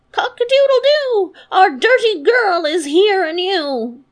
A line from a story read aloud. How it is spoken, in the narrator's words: the rooster on the well he cried out